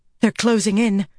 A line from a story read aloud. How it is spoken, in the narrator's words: Lelaine said, panting